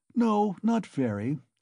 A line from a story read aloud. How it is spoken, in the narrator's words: Svidrigailov answered calmly